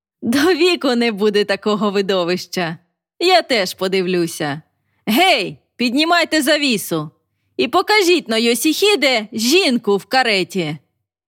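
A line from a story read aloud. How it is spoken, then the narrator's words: Laughing. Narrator (Ukrainian): засміявшись, додав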